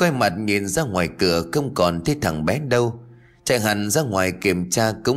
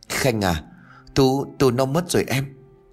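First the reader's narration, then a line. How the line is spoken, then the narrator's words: Tearful, trembling lips. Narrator (Vietnamese): Anh Thắng mếu máo nói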